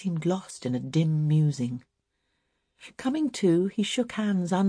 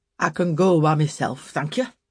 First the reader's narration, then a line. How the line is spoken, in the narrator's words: testily replied the father